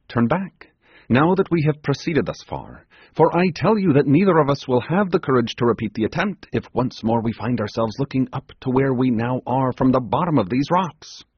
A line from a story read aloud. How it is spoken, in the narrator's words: exclaimed